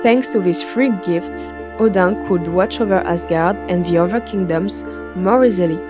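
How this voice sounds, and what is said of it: Speaker's own non-native accent. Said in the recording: “Sorry for my accent,”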